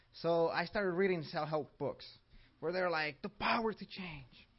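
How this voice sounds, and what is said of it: Mexican accent. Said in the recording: “I have an accent. So I was born in Mexico, and I came here when I was 12.”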